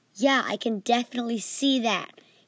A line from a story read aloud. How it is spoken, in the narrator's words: he said angrily